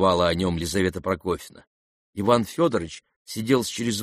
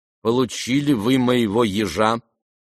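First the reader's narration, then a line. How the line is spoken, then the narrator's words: Firm, almost angry question. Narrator (Russian): твердо и почти сердито спросила она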